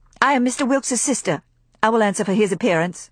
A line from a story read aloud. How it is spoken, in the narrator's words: said India coldly